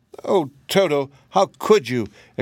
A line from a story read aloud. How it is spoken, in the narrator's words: exclaimed Dorothy, much distressed